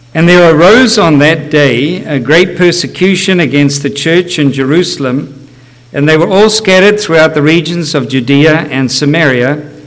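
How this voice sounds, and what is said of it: Heavy non-native English accent. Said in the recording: “you'll get used to my accent and you'll know that I'm speaking English, even though it doesn't sound like it.”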